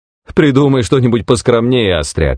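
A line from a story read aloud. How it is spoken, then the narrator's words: Laughing. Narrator (Russian): рассмеялся Хэм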